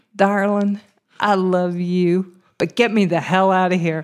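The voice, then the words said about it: Put-on Texas accent. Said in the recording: “in my very best Texas accent”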